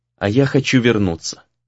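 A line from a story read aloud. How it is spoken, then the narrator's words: Quiet, faintly threatening. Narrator (Russian): негромко сказал Сагюнару, и в его словах Рею послышалась отдаленная угроза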